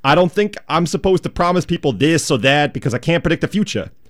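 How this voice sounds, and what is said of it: Put-on JFK-style politician accent. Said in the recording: “I don't really know where that accent came from ... Kind of a JFK-like ... With that accent.”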